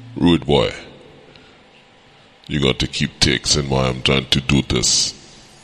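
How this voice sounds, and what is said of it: Bad put-on Jamaican accent. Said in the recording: “That's like a terrible ass. That's a terrible ass Jamaican accent right there.”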